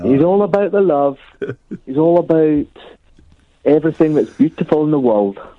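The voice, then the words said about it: Put-on accent, quite good. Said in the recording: “It's quite a good accent. ... It's a bit Billy Connolly.”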